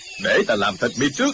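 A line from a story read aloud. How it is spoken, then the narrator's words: Shouted. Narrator (Vietnamese): quát lên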